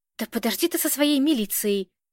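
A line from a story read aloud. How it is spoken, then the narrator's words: Gruff grumble. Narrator (Russian): буркнул Белкин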